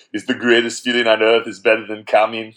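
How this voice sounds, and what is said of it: Arnold Schwarzenegger impression. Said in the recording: “you do a great Arnold impression”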